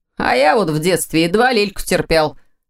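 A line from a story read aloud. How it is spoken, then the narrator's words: Snorting, clearly fibbing. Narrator (Russian): хмыкнул он, явно привирая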